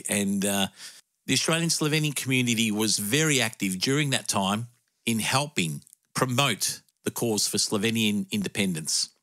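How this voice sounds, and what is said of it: Emotional, teary voice. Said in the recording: “I'm a bit emotional talking about that. It always happens. I get a bit teary ... And it just happened now.”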